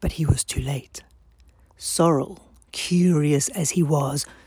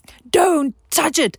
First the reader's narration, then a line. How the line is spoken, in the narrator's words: Jinti shouted